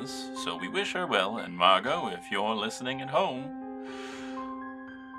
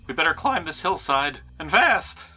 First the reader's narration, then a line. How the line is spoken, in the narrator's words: Frank exclaimed